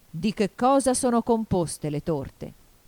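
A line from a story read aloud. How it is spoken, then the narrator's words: Deep voice. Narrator (Italian): disse il re, disse con voce profonda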